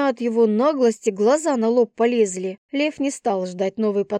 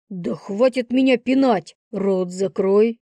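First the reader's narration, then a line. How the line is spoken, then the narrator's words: Lion's growl. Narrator (Russian): рыкнул лев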